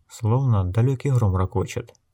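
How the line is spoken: Uncertain whisper. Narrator (Russian): неуверенно прошептала

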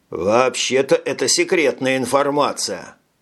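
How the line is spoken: Plain. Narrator (Russian): сказал Горский

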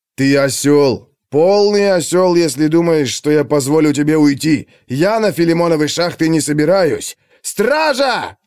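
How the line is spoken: Yelling. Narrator (Russian): завопил кореец

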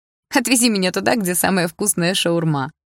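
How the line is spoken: Laughing. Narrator (Russian): рассмеялась Дилара

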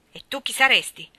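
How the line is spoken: Rude old woman asking. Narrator (Italian): domandò la vecchia zitella in tono sgarbato

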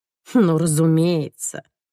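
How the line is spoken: Grumbling. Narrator (Russian): буркнула я

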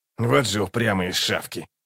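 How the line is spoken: Muttered. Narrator (Russian): пробормотал Локон

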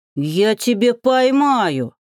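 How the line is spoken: Snorting. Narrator (Russian): фыркнул Велька

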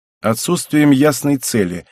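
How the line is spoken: Plain. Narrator (Russian): ответил я

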